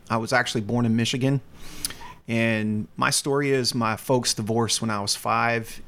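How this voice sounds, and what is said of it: Slight Southern American accent. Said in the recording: “You got a little bit of an accent there... a, a, slight Southern accent from being raised in North Carolina”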